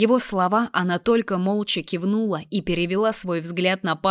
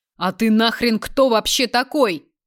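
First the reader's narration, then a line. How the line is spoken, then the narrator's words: Desperate yell. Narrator (Russian): Заорал несчастный на Беркутова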